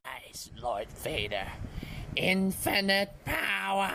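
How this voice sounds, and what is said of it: Star Wars villain voice impression. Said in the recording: “impersonation ... It's from Star Wars.”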